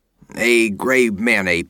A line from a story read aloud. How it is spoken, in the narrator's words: he grunted